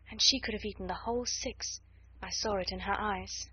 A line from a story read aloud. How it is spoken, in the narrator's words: said in a low voice